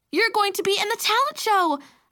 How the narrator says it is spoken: I exclaimed

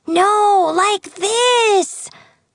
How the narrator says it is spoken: shouted

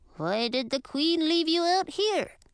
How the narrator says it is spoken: Shelton asked, his voice muffled by fabric

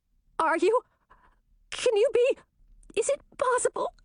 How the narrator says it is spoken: stammered Chartreuse

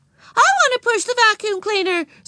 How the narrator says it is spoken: screamed Susan

